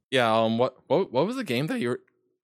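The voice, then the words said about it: Voice cracks mid-sentence. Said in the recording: “Oh my god, voice crack! ... My voice just cracked so hard.”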